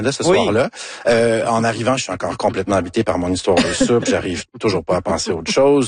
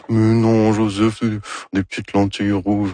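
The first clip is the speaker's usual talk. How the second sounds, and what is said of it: Imitates another person's voice. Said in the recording (French): “Ça, c'est mon imitation de Anne Dorval... Très réussi.”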